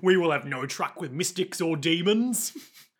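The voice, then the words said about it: Put-on Cockney guard voice. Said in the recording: “he's got Cockney voice, but Cockney guard voice ... every single bystander, if they're an asshole, deserves the Cockney accent.”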